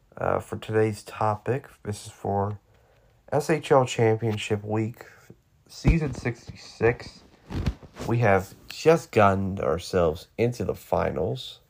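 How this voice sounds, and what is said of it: Sick, slightly off-sounding voice. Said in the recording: “I may not sound very good right now because I am a little bit sick... my voice sounds a little off”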